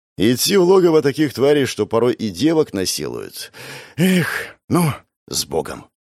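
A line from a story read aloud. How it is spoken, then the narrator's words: Exhaled sighing. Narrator (Russian): Выдохнул барыга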